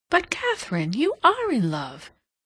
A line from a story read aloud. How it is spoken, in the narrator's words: Hilbery could not help exclaiming